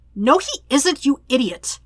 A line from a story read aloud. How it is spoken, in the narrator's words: Sokka snaps